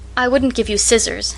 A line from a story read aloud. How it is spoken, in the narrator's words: she said